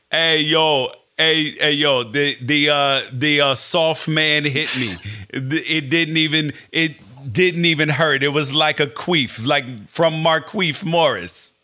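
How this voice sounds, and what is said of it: Serbian accent impression of Nikola Jokic. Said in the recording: “your Serbian accent is fantastic”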